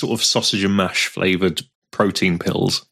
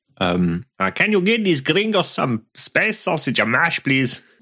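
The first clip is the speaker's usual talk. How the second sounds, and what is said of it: Put-on Belter sci-fi accent. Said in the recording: “in Belter ... That was more racist than the previous accents.”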